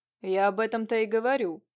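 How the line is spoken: Creaky voice. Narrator (Russian): проскрипел Нелидов

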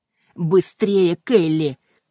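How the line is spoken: Shouted. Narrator (Russian): крикнула инспектор

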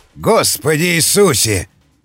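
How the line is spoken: Yelled. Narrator (Russian): заорал Роберт

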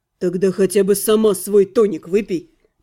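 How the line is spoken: Grumbling. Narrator (Russian): проворчал Алиорн

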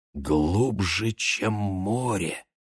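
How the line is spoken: Barely audible whisper. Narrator (Russian): шепталось еле слышно

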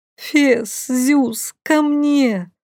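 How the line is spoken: Terrified moan. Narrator (Russian): простонала я, в ужасе

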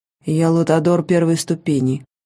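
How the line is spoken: Impassive low voice. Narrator (Russian): бесстрастным низким голосом начал он

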